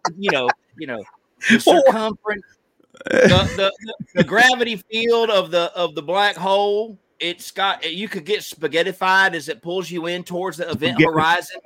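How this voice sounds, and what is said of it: Southern US accent. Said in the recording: “if you got a Southern accent, you sound stupid ... because you say it in a Southern accent”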